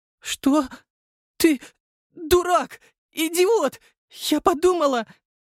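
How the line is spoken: Breathless outburst. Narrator (Russian): выдохнула девушка

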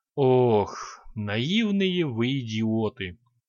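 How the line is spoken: General's heavy sigh. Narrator (Russian): тяжело вздохнул генерал

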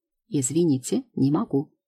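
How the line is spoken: Quiet. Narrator (Russian): тихо отвечает девушка

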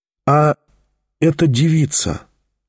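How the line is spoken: Very timid. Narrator (Russian): очень робко начал опять Тихон

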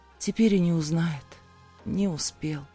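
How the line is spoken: Sniffling whisper. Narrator (Russian): шмыгнув носом, прошептала

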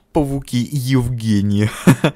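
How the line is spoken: Giggling. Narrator (Russian): хихикнул

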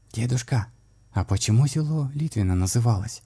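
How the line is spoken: Quiet child's question. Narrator (Russian): тихим голосом спросила малышка Велеся

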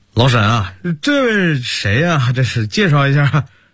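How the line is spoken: Relaxed, smiling. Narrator (Chinese): 马国良施施然…对着沈韵微笑

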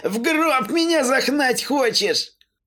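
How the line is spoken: Cheerful question through coughing. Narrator (Russian): Пытаясь унять взбудораженный кашель, весело поинтересовался он

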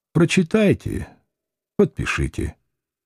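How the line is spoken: Tired offer. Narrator (Russian): предложил устало

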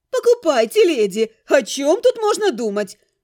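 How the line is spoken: Exclaiming. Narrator (Russian): воскликнула она

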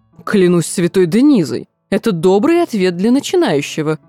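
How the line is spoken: Laughing king. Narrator (Russian): смеясь проговорил король

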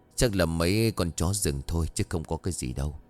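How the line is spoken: Soft-spoken. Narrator (Vietnamese): Ông Trưởng nhóm khẽ nói

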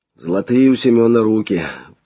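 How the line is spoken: Sighing. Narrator (Russian): вздохнул Флавиан

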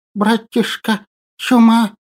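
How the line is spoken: Guilty lisping. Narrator (Russian): виновато зашепелявил мой бессменный напарник

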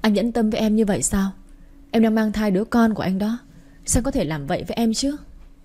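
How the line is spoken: Tearful pleading woman. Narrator (Vietnamese): Quỳnh Hoa cứ khóc lóc níu kéo Tuấn Khải

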